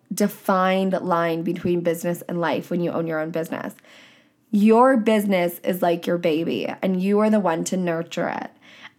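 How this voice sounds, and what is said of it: Hoarse, lower-pitched, low-energy voice. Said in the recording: “I'm a little bit hoarse, like my voice is kind of gross and like I'm talking a lot like lower pitch than I might normally and I feel a little bit low energy”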